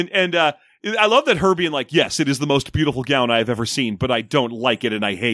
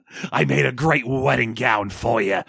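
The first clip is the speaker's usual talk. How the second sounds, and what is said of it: Harvey Fierstein impression. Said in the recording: “Can I do a Harvey Fierstein accent?”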